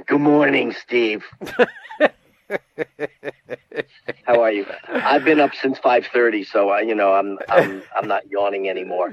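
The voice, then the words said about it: Imitates another person's voice. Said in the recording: “my impersonation of Andy Serling”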